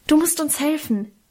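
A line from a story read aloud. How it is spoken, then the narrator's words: Hasty call. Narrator (German): rief ich hastig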